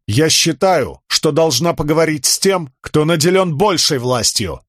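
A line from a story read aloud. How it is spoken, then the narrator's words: Loud. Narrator (Russian): громко произнесла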